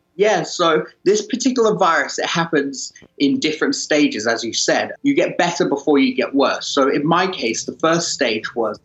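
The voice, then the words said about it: British accent. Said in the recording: “the one with a British accent ... British guy”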